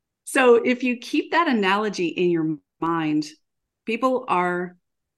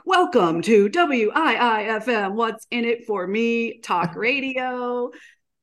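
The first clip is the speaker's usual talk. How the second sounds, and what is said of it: Corny radio announcer voice. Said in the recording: “my really corny radio voice”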